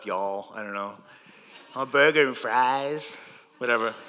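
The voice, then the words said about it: Bad put-on Southern American accent. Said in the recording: “my American accent, I only have one American accent, and it's like the South ... it's really bad”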